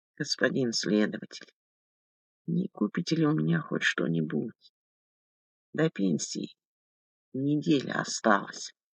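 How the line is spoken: Quiet plea. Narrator (Russian): Виктория Павловна тихо попросила

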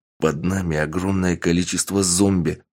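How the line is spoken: Hissing. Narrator (Russian): прошипел босс

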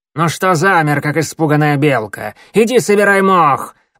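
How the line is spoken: Sharp shout, cat. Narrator (Russian): прикрикнула на него сумрачная кошка

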